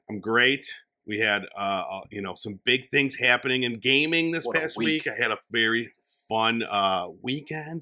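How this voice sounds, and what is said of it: Rough, slightly worn voice. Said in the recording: “I sound maybe a little hungover ... It sounds seasoned. It's a nice patina ... I sound a little rough today”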